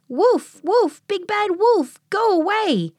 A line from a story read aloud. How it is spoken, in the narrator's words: The pigs yelled